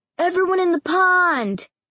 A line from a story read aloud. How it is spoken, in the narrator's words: Noel shouted